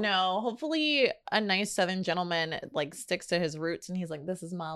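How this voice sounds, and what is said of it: Usual voice. Nothing is said of it.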